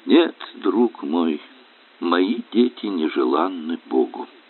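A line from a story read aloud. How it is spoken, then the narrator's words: Sad reply. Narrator (Russian): Александр грустно откликается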